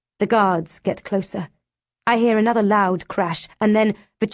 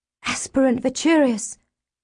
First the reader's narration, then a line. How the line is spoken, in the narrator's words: Izzy whispers